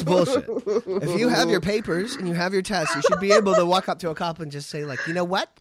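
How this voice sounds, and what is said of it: Usual voice. Nothing is said of it.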